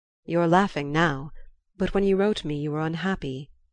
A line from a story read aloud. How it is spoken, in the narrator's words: he said